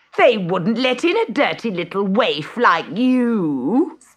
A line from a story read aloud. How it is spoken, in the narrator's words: sneered Gertrude